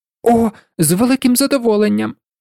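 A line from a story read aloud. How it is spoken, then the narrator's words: Joyful exclamation. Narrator (Ukrainian): вигукнув Ян, щиро зрадівши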